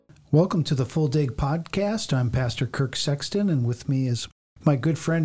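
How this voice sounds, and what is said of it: Usual voice. Nothing is said of it.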